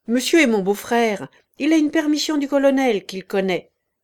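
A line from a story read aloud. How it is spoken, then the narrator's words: Curt. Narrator (French): sèchement, au caporal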